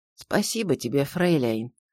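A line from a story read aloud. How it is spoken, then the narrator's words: Trembling voice. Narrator (Russian): дрогнувшим голосом произнес Маковский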